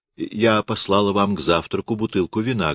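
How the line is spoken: Plain. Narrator (Russian): говорит сестра

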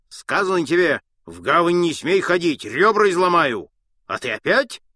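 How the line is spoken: Watchman shouting threateningly. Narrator (Russian): грозно кричал сторож

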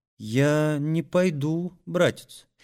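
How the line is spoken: Quiet, timid girl. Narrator (Russian): тихо отвечала робкая Настя

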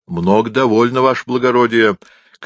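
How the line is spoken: Soldierly shout after them. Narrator (Russian): крикнул по-солдатски нам вслед Ефрем

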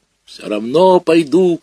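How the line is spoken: Shouting. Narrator (Russian): кричал я на бабушку

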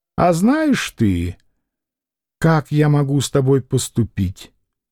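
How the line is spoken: Simple, calm. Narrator (Russian): Маякин сказал тоже просто и спокойно

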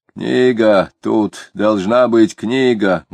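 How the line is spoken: Explaining after loud lip smack. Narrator (Russian): громко чмокнув, объяснил офицер

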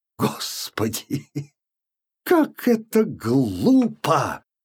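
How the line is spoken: Sudden exclamation, harsh laughter. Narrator (Russian): воскликнула она вдруг с резким хохотом

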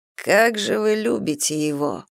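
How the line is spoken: Muttered. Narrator (Russian): пробормотал Скраймор

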